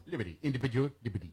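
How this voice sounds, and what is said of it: Impression of Jody Hamilton's Melania. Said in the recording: “doing an impression of Jody Hamilton, ... Doing an impression of Melania.”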